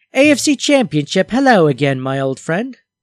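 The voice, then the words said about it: Rough put-on British accent. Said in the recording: “I feel like I should just do them in a British accent ... No, that's pretty rough.”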